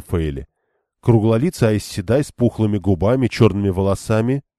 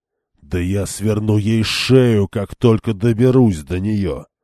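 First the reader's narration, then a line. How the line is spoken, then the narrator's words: Growling. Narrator (Russian): прорычал Перин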